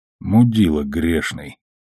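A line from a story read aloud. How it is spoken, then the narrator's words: Muttered under breath. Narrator (Russian): пробормотал себе под нос Амос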